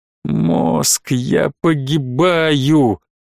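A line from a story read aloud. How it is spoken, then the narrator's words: Hysterical laughter, pained throat. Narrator (Russian): истерически захохотал, морщась от боли в горле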